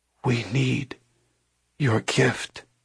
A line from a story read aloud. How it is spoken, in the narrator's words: whispered